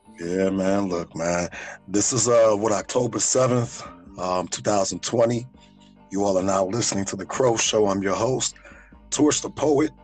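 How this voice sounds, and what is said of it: Raspy, hoarse voice. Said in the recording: “this raspy-ass voice ... I've been shouting my ass off”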